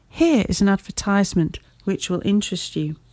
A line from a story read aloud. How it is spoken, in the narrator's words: he said